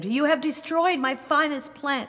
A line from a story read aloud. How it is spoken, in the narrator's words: the gardener exclaimed